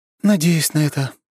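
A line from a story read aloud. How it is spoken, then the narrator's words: Sighing older sister. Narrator (Russian): вздохнула старшая сестра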